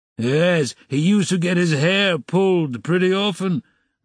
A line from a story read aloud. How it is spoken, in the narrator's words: roared the commissariat clerk again, swallowing another glass of vodka